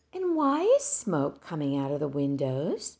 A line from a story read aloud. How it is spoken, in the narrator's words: gently pressed Miss Binney